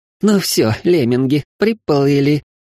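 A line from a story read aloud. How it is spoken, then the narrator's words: Slightly hysterical chuckle. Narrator (Russian): Немного истерично хохотнула убивашка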